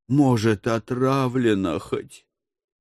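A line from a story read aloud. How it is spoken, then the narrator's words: Hopeless sigh. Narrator (Russian): безнадежно вздохнул Моня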